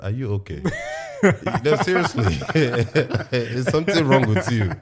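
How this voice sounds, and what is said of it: Put-on Nigerian accent. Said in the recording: “In my Nigerian accent”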